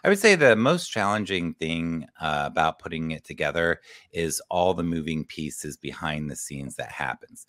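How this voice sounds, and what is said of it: Strained, fading voice. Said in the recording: “I'm losing my voice. I've been talking a lot”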